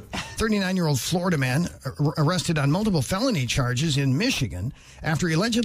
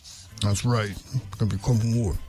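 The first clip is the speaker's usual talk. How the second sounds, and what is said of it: Mumbled imitation of another person's voice. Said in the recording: “Is that your Stallone impersonation? ... Yes. ... Just mumble along.”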